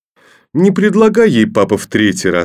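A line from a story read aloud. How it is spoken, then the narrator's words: Mocking. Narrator (Russian): сказал насмешливо Коля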